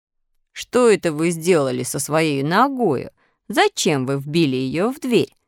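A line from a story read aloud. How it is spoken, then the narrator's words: Laughing question. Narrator (Russian): спросила улитка, смеясь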